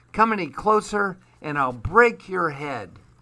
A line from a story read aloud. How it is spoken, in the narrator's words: Duck winced in pain, but bravely called out